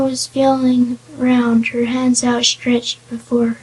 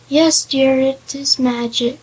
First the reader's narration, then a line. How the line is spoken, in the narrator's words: replied